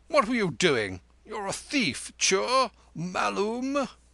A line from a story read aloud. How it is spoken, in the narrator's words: he said, shaking him severely, cried